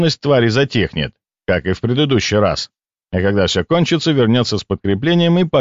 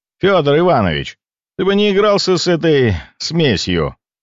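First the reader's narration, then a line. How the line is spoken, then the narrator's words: Calling out sharply. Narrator (Russian): окрикнул я наставника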